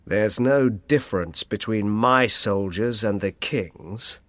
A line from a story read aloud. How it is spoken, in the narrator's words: replied the cardinal coldly